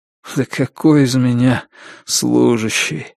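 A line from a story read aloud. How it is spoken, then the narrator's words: Sad smile. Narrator (Russian): грустно улыбнулся Артемьев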